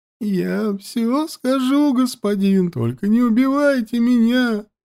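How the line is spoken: Whimpering plea. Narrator (Russian): захныкал турок

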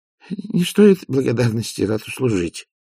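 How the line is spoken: Muttered. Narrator (Russian): пробормотал Овс

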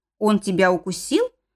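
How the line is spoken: Alarmed growl. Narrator (Russian): рыкнул папа так, словно меня сожрали и оставили от бедной Вики рожки да ножки

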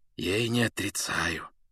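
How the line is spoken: Near whisper. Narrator (Russian): почти шепотом сказал он

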